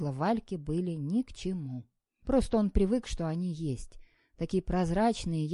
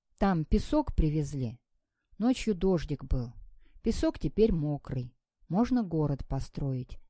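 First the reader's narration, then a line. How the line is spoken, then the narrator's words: Thoughtful. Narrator (Russian): задумчиво сказал он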